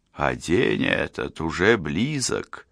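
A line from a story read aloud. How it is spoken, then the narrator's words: Quiet from doorway. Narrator (Russian): тихо донеслось с порога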